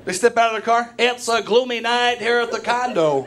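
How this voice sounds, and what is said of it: Baseball announcer voice. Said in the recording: “announcer voice ... I love that voice ... still use that voice”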